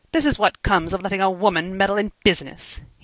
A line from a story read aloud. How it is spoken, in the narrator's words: he said bitterly